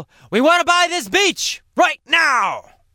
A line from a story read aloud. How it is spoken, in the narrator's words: they'll yell